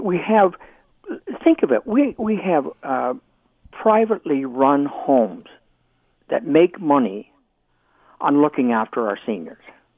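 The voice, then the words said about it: Exasperated tone of voice. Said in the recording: “it's exasperating, and you probably can tell that in my voice”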